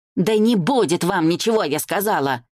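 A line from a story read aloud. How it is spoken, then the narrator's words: Rude yelling. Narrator (Russian): Эта тетка орала так хамски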